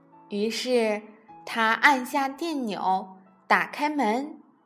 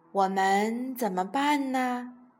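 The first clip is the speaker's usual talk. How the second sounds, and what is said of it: Quiet, hushed question. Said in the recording (Chinese): “小声的问太太”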